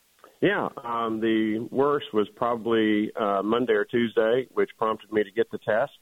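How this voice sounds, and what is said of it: Slightly hoarse voice. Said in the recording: “my voice. It's just a little bit hoarse.”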